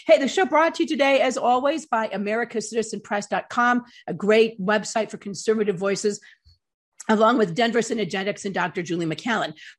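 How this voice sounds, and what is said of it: Voice affected by a cold. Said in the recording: “I have a bit of a cold, a summer cold”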